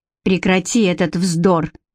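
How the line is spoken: Sharp interruption. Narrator (Russian): резко оборвала Элоиза

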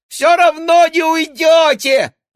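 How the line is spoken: Yelling. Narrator (Russian): вопил

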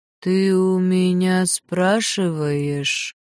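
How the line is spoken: Sighing. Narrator (Russian): Вздохнула

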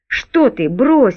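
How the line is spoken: Frightened exclamation. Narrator (Russian): испуганно воскликнул Борн

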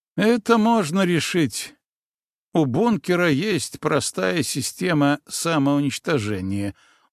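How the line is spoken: Weary exhale. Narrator (Russian): устало выдохнул Дмитрий

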